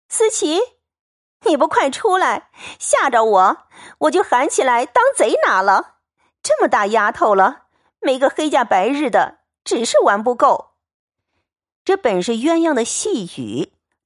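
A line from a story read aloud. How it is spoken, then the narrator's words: Playful laughing call. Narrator (Chinese): 鸳鸯恐吓着耍，因便笑叫道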